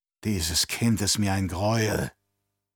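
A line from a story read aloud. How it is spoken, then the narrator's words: Old woman gasping. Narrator (German): stieß die alte Frau keuchend hervor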